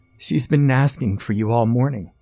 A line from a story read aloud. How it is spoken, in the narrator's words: Maggie exclaimed